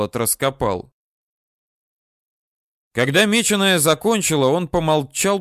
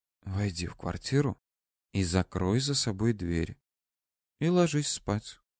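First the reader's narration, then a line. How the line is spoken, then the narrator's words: Whisper. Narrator (Russian): прошептал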